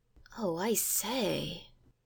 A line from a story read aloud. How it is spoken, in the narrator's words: murmured Robert